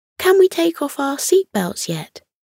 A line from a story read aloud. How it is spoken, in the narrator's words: Maggie, the oldest child, asked eagerly